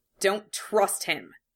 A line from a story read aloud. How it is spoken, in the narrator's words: snapped